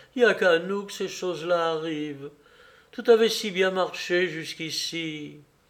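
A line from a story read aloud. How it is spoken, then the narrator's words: Woman's sigh. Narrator (French): soupira la femme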